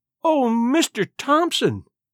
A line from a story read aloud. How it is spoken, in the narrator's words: she cried out, catching her suspended breath